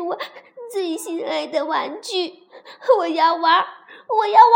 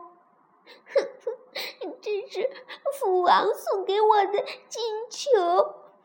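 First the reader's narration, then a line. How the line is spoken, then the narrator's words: Sobbing while speaking. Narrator (Chinese): 呜呜地哭了起来，边哭边说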